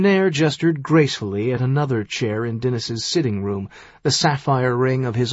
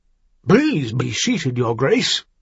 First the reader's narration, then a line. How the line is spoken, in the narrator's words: he said hastily